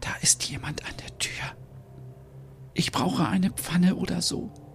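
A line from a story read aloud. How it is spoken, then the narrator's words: Whisper. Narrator (German): Stina flüstert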